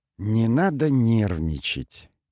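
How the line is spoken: Gentle. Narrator (Russian): мягко произнес Мойза

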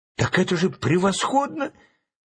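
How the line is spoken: Excited exclamation. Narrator (Russian): воскликнул Чарли Блэк

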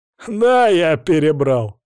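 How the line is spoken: Loud laughter. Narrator (Russian): расхохотался Улькир

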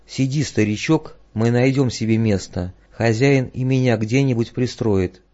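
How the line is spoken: Gentle young man. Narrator (Russian): юноша ласково сказал

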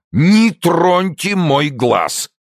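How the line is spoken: Growled. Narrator (Russian): зарычал депутат от Вошбезона

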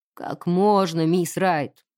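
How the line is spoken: Grumbling. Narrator (Russian): проворчал он, не ускоряясь даже на самую малость

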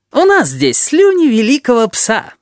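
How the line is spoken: Joyful reply. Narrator (Russian): радостно отозвался Табаки

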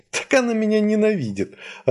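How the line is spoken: Joyful laughter. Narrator (Russian): радостно рассмеялась Васька

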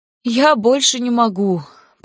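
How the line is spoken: Pained moan. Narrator (Russian): простонала Карисса, морщась от боли

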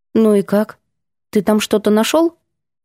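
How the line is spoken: Quiet hearty laughter. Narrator (Russian): Ванька негромко, но от души смеясь

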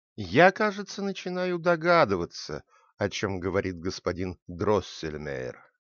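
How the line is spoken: Quiet. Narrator (Russian): Докторша тихо сказала

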